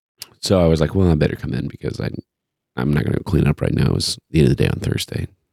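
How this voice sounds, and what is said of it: Deeper, slightly froggy voice. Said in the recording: “my voice is a little deeper than usual. ... A little more sultry than usual. ... every once in a while, I get like a little bit of a frog ... I have a little tickle every once in a while”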